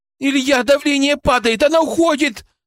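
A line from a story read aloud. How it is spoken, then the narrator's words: Desperate shout. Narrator (Russian): С отчаянием в голосе крикнула Кристина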